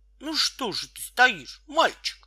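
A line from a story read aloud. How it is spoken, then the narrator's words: Angry woman. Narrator (Russian): сердито сказала толстая тетя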